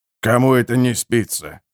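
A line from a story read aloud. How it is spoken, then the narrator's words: Irritated grumble. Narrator (Russian): раздраженно проворчал торговец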